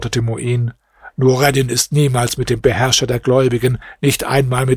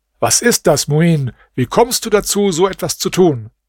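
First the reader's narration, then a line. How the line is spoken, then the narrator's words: King shouting angrily. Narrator (German): rief er ihm voll Zorn zu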